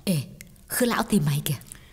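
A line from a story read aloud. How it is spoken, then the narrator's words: Whispering. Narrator (Vietnamese): Xuân thì thầm nói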